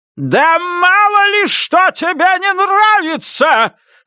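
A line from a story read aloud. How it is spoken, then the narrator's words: Full-voiced roar. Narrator (Russian): взревела свекровь во всю мощь своего голоса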